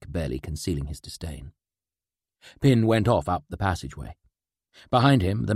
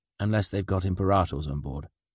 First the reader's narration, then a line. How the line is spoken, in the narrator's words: Craig said